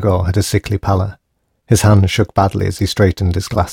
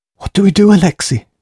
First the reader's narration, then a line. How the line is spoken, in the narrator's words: he squeaked